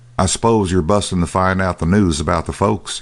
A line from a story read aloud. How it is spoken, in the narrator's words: said dryly